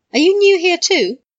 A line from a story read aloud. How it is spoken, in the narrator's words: Sirius laughed